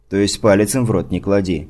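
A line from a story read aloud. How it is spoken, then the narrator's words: Snorting. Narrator (Russian): хмыкнул я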